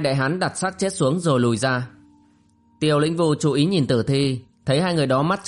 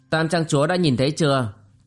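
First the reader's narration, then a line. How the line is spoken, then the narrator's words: Cold question. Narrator (Vietnamese): Bộ Thiên Tinh lạnh lùng hỏi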